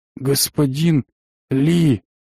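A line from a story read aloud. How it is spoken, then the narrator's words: Toothless mumble. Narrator (Russian): прошамкал Матвеев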